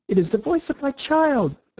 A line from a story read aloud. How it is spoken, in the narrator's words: the White Queen cried out